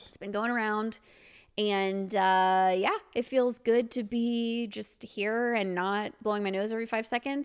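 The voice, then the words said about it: Husky voice, huskier than normal. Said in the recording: “my voice sounds a little... huskier than normal.”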